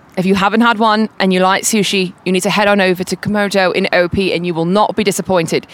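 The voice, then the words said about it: Put-on British accent. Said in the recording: “I can hit you with like a British accent.”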